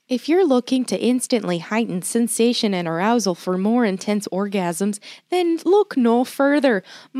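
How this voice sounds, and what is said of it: Put-on Midwestern, Canadian-sounding accent. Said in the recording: “Midwest accent ... More Canadian.”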